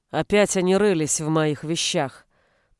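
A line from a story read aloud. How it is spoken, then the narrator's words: Deep bass voice. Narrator (Russian): пробасила она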